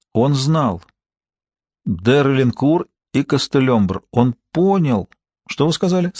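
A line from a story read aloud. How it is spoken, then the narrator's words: Plain question. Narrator (Russian): спросил Топпинг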